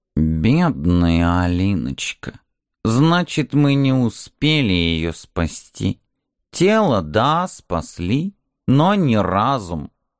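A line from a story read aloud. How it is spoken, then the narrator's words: Weak voice. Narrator (Russian): Кот слабым голосом произнес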